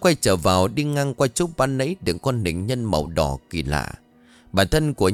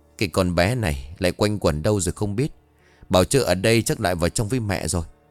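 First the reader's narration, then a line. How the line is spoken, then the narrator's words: Muttering. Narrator (Vietnamese): Cô lẩm bẩm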